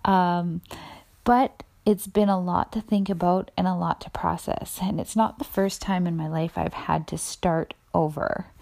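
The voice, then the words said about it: Slightly raspy voice. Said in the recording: “my voice is even sounding a little bit raspier than usual”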